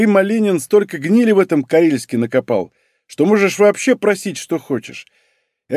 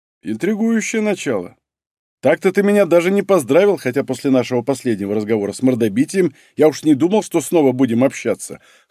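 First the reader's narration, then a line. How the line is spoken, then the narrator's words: Short laugh. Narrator (Russian): хохотнул Иван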